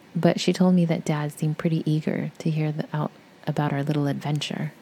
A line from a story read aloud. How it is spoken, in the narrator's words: she answered